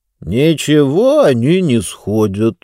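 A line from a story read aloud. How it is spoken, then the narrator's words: Calm reply. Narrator (Russian): спокойно ответил Мортур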